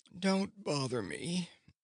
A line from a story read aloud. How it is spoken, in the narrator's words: lazily answered the pink kitten